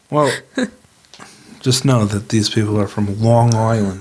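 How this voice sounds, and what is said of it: Fake Long Island accent. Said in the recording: “a Long Island accent ... that fake accent”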